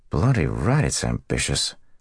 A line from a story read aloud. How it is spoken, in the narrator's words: Matt muttered